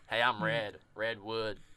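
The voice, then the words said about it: Put-on southern accent. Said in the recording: “That's a southern accent”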